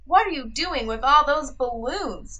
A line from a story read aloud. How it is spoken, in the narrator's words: Duck asked